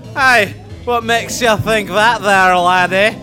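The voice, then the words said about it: Put-on Scottish accent. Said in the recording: “you're from Scotland? ... the accent,”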